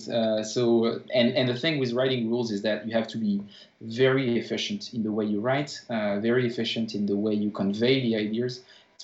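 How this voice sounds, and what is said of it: Strong French accent in English. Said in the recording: “I'm not native in English... a strong French accent”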